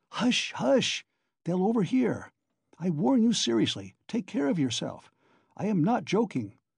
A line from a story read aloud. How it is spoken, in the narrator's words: Porfiry whispered